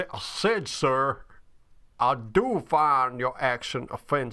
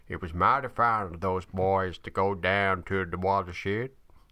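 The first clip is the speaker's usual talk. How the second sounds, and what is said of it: Put-on Southern American twang. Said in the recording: “very, very southern twang to that accent”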